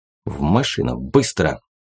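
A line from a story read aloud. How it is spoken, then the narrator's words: Barely audible urgent. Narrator (Russian): едва слышно проговорил он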